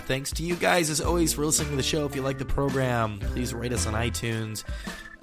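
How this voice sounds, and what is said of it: Unwell, rough-sounding voice. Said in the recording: “my voice is not quite 100% ... hopefully the next time you hear me, I will sound somewhat like a human being”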